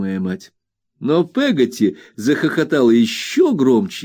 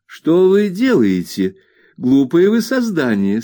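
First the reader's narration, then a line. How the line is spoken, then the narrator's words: Mother's laughing question. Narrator (Russian): смеясь, осведомилась моя мать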